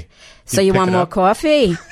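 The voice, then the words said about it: Imitated New York accent. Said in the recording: “I'm kind of a mimic ... if I had someone in from New York, forget it”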